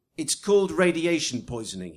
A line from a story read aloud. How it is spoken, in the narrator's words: snapped